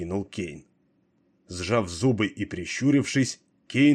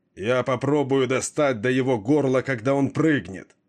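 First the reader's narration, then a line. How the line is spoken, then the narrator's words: Grim shout. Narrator (Russian): мрачно выкрикнул Кейн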